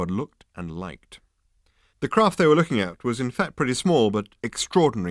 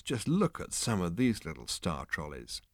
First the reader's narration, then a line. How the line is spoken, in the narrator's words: he said in a quiet voice